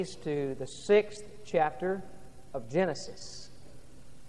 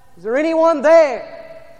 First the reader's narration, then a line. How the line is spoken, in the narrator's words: he was holding on for dear life, and he called out